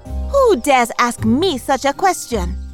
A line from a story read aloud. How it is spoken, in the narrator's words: she replied angrily